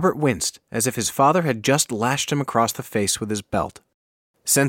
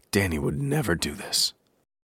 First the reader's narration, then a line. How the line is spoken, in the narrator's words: solemnly and then softly said, almost to himself